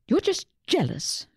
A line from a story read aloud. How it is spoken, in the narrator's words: Susie snapped